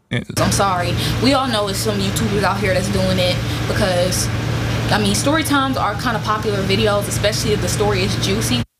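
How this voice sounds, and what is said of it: Hard-to-understand, possibly African accent. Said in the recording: “can you even really understand what she's saying? ... This isn't any like type of like American English accent that I can understand natively. ... I think it's some sort of a African maybe.”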